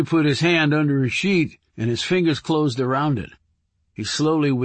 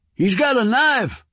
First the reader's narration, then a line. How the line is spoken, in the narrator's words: screamed Earl